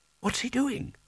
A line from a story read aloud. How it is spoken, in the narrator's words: Spelter whispered